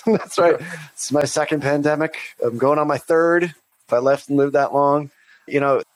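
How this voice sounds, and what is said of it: Sick, chesty-sounding voice. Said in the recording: “You can actually hear sort of my bronchitis, my pneumonia, my old man pneumonia.”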